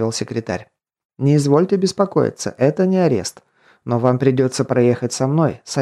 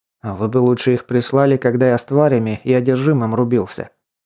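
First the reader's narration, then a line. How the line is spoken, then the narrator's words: Grumbling. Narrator (Russian): проворчал Константин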